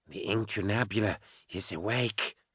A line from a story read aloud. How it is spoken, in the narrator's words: Keener whispered